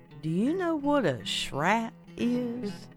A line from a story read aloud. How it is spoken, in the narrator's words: the old woman looked cautiously around and said softly